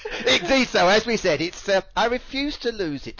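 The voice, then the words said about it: British accent. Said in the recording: “I love your voice and your British accent.”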